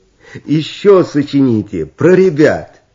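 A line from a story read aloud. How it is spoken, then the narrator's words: Girls singing, laughing. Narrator (Russian): Девчата, рассмеявшись, спели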